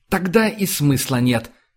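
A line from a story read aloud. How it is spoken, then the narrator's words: Sharp interruption. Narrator (Russian): резко перебил Риони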